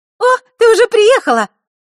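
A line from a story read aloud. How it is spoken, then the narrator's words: Joyful exclamation. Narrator (Russian): обрадованно воскликнула она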